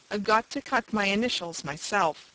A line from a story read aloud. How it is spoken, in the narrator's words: he said firmly